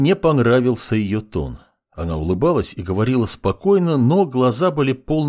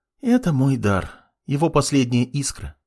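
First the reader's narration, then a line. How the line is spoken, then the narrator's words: Sad sigh, young woman. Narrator (Russian): с грустью вздохнула девушка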